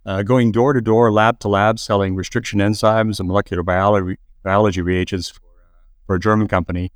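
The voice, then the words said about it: Canadian accent. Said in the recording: “people could probably tell from my accent, I started in Canada”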